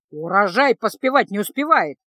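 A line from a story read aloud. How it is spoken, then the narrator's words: Old woman howling. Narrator (Russian): вопила боевая старуха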